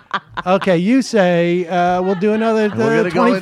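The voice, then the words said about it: Impression of Kelly. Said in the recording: “my impression of Kelly”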